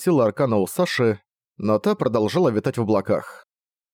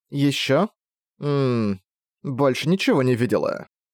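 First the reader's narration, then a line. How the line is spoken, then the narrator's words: Sleepy speech. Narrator (Russian): сонно сказала Саша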